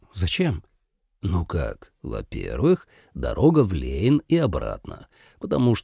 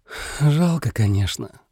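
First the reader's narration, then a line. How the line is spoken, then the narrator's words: Sighing. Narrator (Russian): вздохнул Саро Шио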